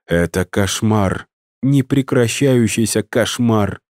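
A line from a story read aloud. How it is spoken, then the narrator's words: Moaning. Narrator (Russian): простонала Ирина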